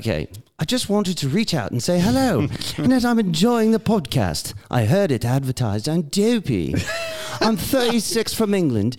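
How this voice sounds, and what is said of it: Put-on British accent. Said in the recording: “Do you want to read it in a British accent?”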